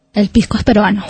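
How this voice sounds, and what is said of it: Man imitating a woman's voice. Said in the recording (Spanish): “imíteme una voz de mujer ... ¿Imita siempre la misma voz de mujer”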